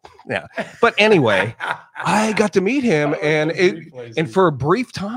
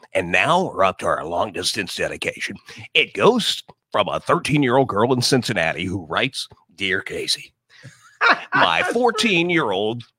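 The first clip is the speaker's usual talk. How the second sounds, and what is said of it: Casey Kasem impression. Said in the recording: “Casey Kasem was a big influence on me. In fact, I do impersonation of him to this day.”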